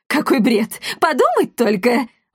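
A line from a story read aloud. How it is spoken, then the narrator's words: Exclaimed. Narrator (Russian): воскликнул он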